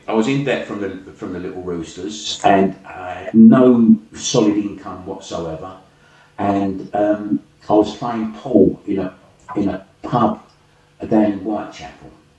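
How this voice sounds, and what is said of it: Working class London accent. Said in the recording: “marvellous, genuine working class London accent.”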